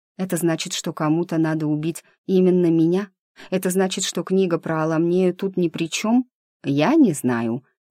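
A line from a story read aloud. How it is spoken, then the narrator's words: Soft. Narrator (Russian): мягко произнес Дымов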